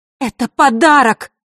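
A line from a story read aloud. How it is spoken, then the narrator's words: Angry shout. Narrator (Russian): зло выкрикнула Василиса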